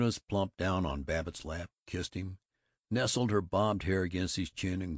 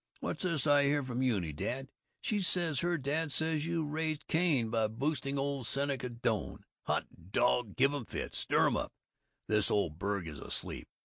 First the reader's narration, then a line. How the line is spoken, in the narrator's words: Ted chuckled